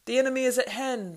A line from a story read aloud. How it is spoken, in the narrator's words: they yelled